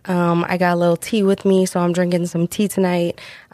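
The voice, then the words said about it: Sick, different-sounding voice. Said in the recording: “I am sick... I am not feeling the best as we record this. So my voice might sound a little different.”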